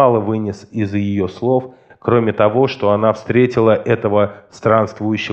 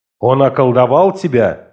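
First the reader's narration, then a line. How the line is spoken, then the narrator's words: Angry exclamation. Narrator (Russian): гневно воскликнул я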